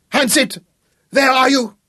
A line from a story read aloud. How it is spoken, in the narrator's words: he screamed wildly